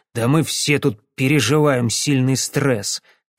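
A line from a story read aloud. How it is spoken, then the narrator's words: Grumbling. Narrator (Russian): проворчал О'Келли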